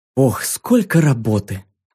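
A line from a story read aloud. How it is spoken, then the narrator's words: Mother sighing. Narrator (Russian): вздохнула мама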